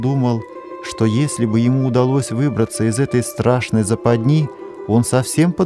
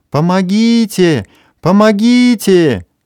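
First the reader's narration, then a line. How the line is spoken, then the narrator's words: Sudden frantic scream. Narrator (Russian): вдруг истошно закричала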